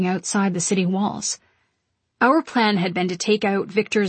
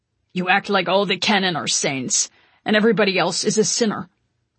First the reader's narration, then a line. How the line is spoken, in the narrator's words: Konstantin said harshly